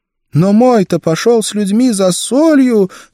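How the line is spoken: Sobbing. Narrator (Russian): зарыдала она

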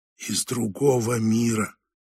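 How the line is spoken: Barely audible. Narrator (Russian): это прозвучало еле слышно

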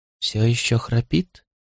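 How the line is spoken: Whisper. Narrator (Russian): прошептал Туп

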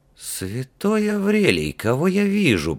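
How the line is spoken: Prince muttering. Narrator (Russian): пробормотал принц

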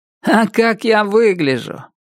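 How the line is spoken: Joyless laugh. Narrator (Russian): она рассмеялась, но очень невесело

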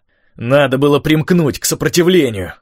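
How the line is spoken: Shouted from a distance. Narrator (Russian): крикнул Николин из ячменя

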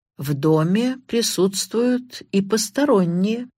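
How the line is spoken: Slow, deliberate. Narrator (Russian): медленно произнес Карри

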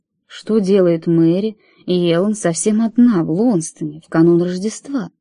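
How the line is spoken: Soft voice. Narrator (Russian): голос звучал мягко

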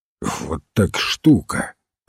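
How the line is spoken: Grumble. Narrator (Russian): проворчал сыщик

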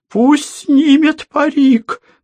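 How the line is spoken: Trembling insistent voice. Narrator (Russian): настаивала дрожащим голосом Елизавета Ивановна

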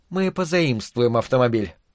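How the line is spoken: Mother's whisper. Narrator (Russian): мать шепотом объяснила Томасу

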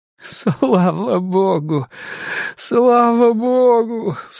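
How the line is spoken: Sobbing. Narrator (Russian): всхлипнул он

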